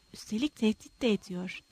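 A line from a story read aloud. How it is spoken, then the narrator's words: Muttering. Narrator (Turkish): diye mırıldandı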